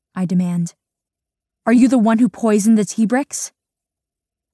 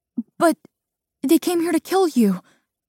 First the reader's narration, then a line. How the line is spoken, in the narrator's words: I sputter